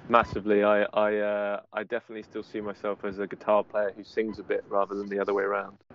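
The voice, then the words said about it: Non-American English accent. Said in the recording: “your accent, right? Especially us idiots here in America”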